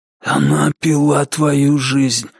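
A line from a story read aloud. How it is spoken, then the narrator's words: Hoarse whisper. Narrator (Russian): хриплым шепотом объяснил маркиз Карабас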